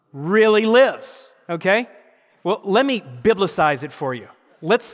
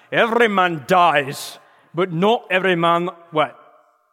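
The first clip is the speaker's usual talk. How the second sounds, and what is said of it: Put-on Scottish accent. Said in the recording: “I wasn't doing it with the Scottish accent.”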